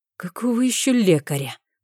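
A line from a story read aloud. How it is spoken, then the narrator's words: Hoarse rasp. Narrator (Russian): прохрипел он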